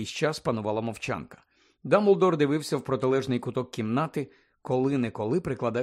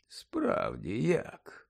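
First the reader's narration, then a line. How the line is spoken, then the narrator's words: Mutter. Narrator (Ukrainian): пробурмотів Дамблдор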